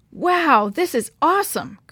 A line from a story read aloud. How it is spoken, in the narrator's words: Chris exclaimed when he saw the falls